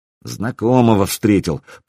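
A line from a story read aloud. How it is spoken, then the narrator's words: Muttered through teeth. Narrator (Russian): процедил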